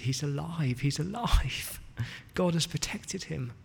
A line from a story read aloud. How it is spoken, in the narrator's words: she sobbed and she said